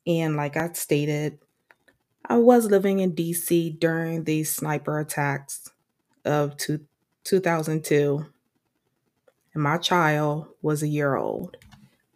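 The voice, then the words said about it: DC accent with Southern tinge. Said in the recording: “you can hear the DC accent in my voice when I say things like Maryland or strawberry ... Some people may even hear Southern accent in my voice”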